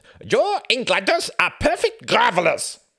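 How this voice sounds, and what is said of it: Exaggerated German accent. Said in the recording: “put on an outrageous German accent.”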